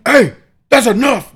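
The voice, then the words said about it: Big loud stern shout. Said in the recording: “the big loud dad voice”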